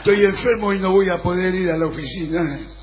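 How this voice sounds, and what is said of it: Fake sick voice. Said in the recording (Spanish): “hay que poner voz de enfermo, como ha hecho el señor”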